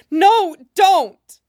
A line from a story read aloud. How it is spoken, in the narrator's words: she screams